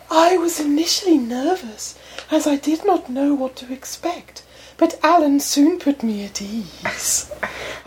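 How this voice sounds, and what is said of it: Put-on female voice. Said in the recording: “read it in a lady voice”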